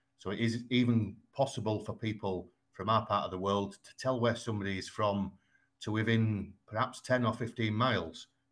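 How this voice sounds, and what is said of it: Strong West Yorkshire accent. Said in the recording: “I have quite a strong West Yorkshire accent ... you have a classic Yorkshire accent”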